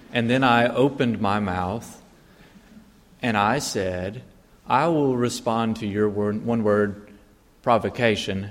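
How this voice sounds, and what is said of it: American accent. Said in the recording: “it became apparent that I was an American because of my accent”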